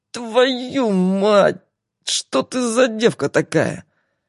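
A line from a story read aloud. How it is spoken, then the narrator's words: Angry hiss. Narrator (Russian): Сердито прошипел Игорь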